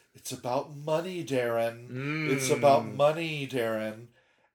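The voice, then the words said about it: Sultry phone-sex-operator voice. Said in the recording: “I sound like a phone sex operator? ... Yes.”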